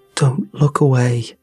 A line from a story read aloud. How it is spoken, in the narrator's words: Manny said